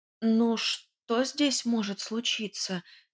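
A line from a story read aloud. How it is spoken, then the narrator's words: Uncertain objection. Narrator (Russian): неуверенно возразила я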